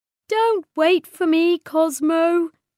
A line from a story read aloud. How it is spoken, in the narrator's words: she said sadly